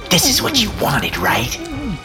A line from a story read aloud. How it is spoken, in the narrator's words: Owen hissed in my ear